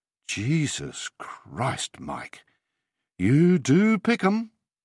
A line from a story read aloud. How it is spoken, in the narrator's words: she said, her voice awed